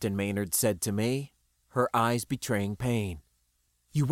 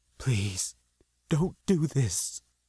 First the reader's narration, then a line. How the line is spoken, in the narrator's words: she whispered from somewhere deep in the misery